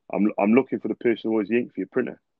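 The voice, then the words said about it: Deliberately deepened low voice. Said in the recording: “Deep voice, sounds pissed off... I deepen my voice to match them... I go deep.”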